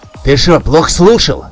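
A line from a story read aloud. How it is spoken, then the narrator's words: Angry reply. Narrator (Russian): Зло ответил напарник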